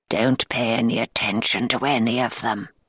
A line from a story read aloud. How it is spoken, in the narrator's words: whispered